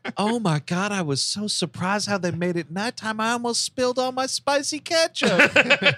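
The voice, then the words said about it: Awed, amazed voice. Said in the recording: “The awe in her voice is just so adorable.”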